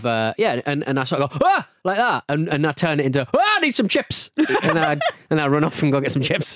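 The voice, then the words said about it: Newcastle accent. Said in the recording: “with a Newcastle accent”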